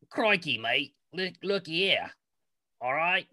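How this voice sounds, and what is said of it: Attempted Scottish accent, way off. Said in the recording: “Let's hear your Scottish accent. ... Way off.”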